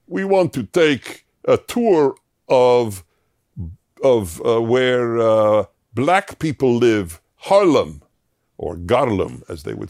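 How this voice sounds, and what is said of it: Put-on Russian accent. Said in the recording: “I'm using a Russian accent”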